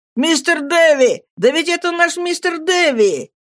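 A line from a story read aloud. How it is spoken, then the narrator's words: Shout. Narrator (Russian): Хэм закричал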